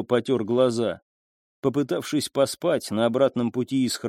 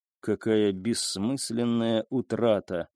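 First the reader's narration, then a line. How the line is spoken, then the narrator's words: Muttering. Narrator (Russian): пробормотал он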